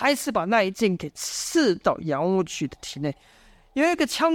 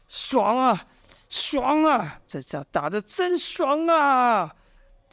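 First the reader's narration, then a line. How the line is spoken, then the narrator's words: Shouting. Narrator (Chinese): 有一人喊道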